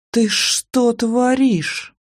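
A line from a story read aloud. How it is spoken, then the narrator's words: Hissed. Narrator (Russian): прошипела я Ольке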